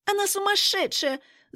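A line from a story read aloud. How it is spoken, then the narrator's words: Accusing squeal. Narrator (Russian): запищала блондинка, полагая, что я зарядила ее любовнику специально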